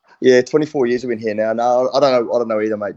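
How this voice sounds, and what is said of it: New Zealand accent. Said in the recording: “how on earth have you not lost that New Zealand accent?”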